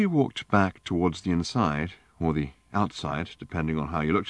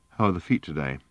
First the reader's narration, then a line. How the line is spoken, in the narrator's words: said Arthur quietly